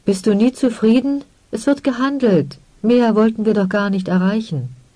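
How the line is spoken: Woman calling out. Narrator (German): rief die blonde Frau

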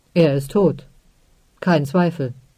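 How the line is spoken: Plain, final. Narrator (German): sagte er schließlich

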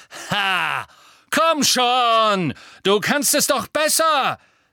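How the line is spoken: Shout echoing in vault. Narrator (German): rief er, und seine Stimme hallte in dem Gewölberaum wieder

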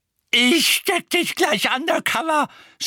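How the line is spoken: Shout. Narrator (German): schrie Mrs

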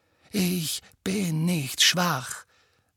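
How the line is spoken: Quiet. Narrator (German): sagte Harry leise

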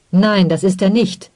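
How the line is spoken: Angry protest. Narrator (German): protestierte Digno wütend

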